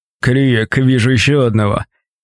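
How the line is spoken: Booming voice. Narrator (Russian): прогудела самая крупная фигура

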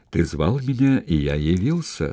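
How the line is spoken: Quiet. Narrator (Russian): сказал он тихо

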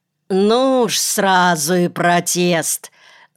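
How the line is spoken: Mocking. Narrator (Russian): насмешливо сказала судья

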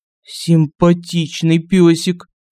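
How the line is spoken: Guard's mutter. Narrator (Russian): пробормотал охранник

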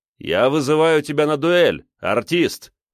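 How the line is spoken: Loud shout for all. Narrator (Russian): Громко, чтобы все слышали, крикнул

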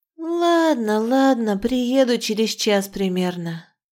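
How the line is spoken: Sighed. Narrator (Russian): вздохнула я

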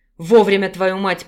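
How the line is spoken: Growl. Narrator (Russian): прорычал Санаров

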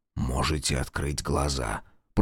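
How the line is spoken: Whisper. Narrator (Russian): прошептал он

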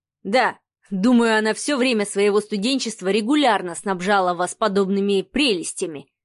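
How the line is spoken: Wry snort. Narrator (Russian): хмыкнул Адмиралов

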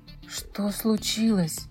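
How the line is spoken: Whispered. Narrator (Russian): прошептал он

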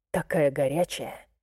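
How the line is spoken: Murmur. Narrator (Russian): пробормотал Найт

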